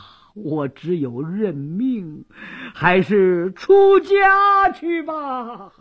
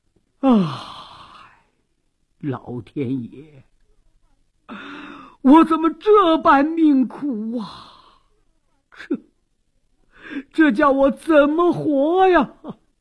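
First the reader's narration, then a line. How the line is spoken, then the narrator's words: Long sigh. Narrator (Chinese): 张圭长叹一声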